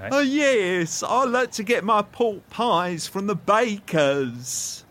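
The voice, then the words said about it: Impression of Barry, like Frank Spencer. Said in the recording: “Do an impression of Barry ... Not ideal ... Not bad ... Frank Spencer”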